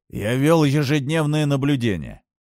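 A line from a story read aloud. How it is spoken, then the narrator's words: Plain. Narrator (Russian): сказал Тейлор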